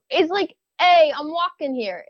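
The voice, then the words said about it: Attempted Brooklyn accent, not convincing. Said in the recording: “Give me your best Brooklyn accent. ... Is that considered Brooklyn? ... I'm not very good at this.”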